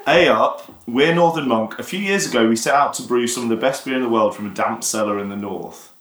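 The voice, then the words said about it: Put-on Yorkshire accent. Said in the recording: “want to do the accent right now. And just to be clear, I have got Yorkshire heritage”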